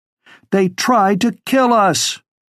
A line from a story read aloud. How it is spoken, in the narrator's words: as a lull hit, she shouted over the rest